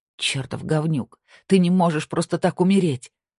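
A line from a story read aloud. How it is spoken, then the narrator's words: Breaking into sobs. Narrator (Russian): она разрыдалась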